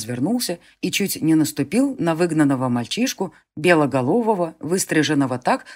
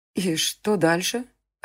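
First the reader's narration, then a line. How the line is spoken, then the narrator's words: Confused question. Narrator (Russian): растерянно спросила она Конора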